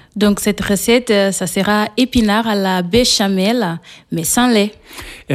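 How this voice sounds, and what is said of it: Slight Portuguese accent in French. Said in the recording (French): “on entend que vous avez un petit accent. Et alors, il vient d'où cet accent ? ... Il vient du Portugal.”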